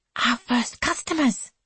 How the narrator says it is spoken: whispers Suki, clasping her hands

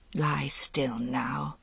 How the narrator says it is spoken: she said quietly

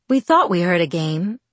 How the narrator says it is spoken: he said in a relaxed voice with the slightest of French accents

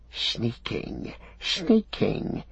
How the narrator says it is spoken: he hissed

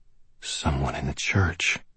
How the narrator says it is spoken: I whispered with a sick feeling in my stomach

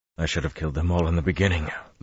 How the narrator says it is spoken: Luz Theron panted

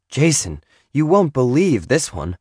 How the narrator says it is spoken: she plunked her books on the table and exclaimed

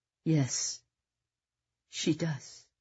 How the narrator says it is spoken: Nick said, sniffing quietly

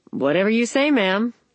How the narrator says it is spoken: the jeweler replied

